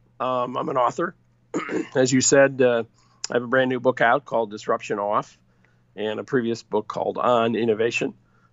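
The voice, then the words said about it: Scratchy throat. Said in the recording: “pardon my scratchy throat; I have a cold.”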